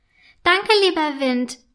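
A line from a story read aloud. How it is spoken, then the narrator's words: Calling to the wind. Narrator (German): ruft Flöckchen dem Wind zu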